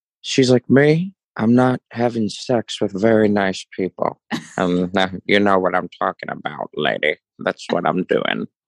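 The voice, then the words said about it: Nasal, affected supervillain-like voice. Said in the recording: “She does this like Judy Garland voice ... It's like this weird supervillain thing that she does ... She does get very nasally”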